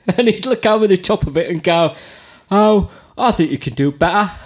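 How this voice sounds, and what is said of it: Attempted Cockney accent, shifting accents. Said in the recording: “do the Cockney Steve Harris ... good impression ... I transitioned through about 5 different accents”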